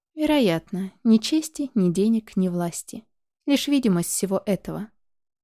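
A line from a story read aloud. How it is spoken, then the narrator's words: Plain. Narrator (Russian): ответил я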